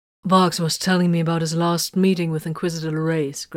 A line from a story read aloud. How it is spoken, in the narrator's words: Grimfang answered